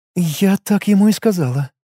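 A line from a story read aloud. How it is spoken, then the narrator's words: Sighed. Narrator (Russian): вздохнула Хаята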